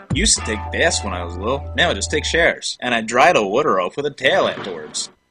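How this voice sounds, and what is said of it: Philadelphia accent. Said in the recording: “as we listened to you talk the Philadelphia accent ... you had a Philadelphia accent”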